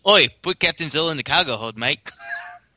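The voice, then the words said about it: Put-on New Zealand accent. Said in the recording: “did it sound like it had a New Zealand accent?”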